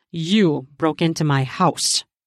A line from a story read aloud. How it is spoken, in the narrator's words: I growled into her ear